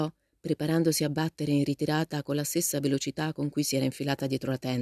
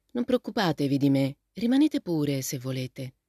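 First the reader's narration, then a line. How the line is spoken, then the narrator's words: Gentle, surprised. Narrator (Italian): il ragazzo si mise a ridere e disse in tono gentile, anche se con un'espressione stupita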